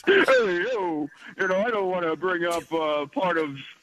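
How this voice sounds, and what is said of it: Poor Rocky Balboa impression. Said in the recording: “my Rocky impersonation, which is really bad now that I'm hearing myself”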